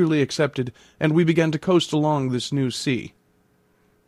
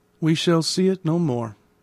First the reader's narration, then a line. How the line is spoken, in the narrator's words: I said with a sigh